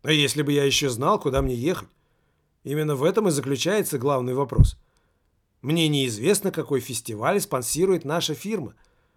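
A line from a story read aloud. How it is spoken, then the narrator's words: Gloomy. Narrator (Russian): мрачно проговорил Немаркетинг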